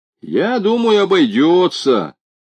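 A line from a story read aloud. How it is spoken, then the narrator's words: Somewhat more confident musing. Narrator (Russian): несколько более уверенным тоном продолжал размышлять Федя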